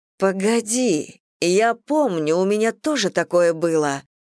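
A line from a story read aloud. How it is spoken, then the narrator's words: Exclaiming. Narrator (Russian): воскликнула Мэгги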